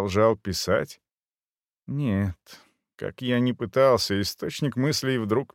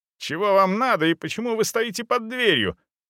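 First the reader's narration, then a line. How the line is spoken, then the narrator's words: Shouted. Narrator (Russian): закричал я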